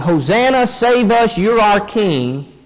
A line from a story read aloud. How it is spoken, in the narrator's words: are going to end up shouting